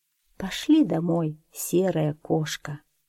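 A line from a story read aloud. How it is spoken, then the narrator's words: Tired, smiling speech. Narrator (Russian): устало улыбнулась и сказала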